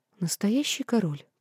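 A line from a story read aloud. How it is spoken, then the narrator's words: Muffled whisper. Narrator (Russian): прошептала я, утыкаясь носом в его плечо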